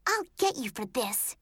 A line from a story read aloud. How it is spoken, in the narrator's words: Brittany leaned over and hissed